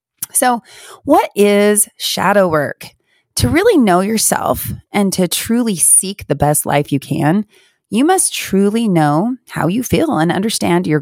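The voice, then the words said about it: Stuffy, congested nasal voice. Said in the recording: “I'm very stuffy today, allergies and I think a lingering cold ... I sound like my nose is stuffed up and I'm going to cough a little bit”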